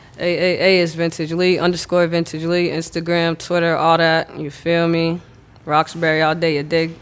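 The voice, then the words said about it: Noticeable regional accent. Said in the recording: “That was some fucking accent ... We heard it.”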